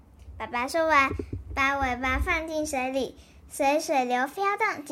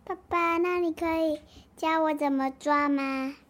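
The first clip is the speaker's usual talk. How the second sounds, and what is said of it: Quiet, soft child's line. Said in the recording (Chinese): “小声的跟爸爸说”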